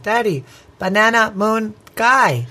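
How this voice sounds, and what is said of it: Cute little child's voice. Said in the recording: “I'm trying to do her cute voice. Did it sound cute?”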